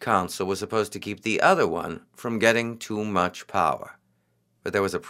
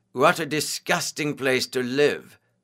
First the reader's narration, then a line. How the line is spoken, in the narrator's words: one of Caesar's friends exclaimed